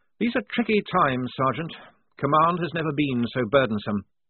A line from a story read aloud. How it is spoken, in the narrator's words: Blouse sigh and say